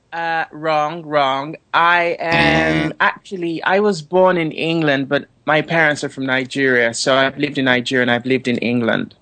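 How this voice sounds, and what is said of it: English accent with another accent underneath. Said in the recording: “I love your accent. ... you're English, but I can hear another something underneath the English.”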